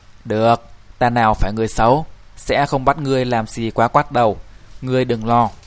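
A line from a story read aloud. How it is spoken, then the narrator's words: Old man, laughing. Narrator (Vietnamese): Lão pháp sư bật cười nói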